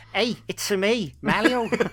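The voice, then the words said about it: Mario impression in a Scouse accent. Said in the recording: “we scouse Mario. Best Mario, best Mario impression ever.”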